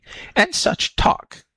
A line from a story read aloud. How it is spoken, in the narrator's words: snapped Topsy